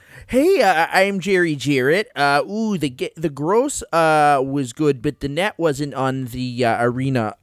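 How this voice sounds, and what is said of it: Imitates another person's voice. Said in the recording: “my impression of Memphis wrestling at that time”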